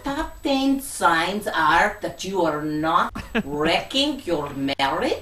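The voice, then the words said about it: Silly put-on accent. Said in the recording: “got a silly accent ... good accent”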